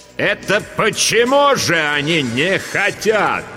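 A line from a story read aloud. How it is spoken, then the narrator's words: Sudden booming voice. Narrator (Russian): Вдруг прогремел на весь класс голос Дурцевой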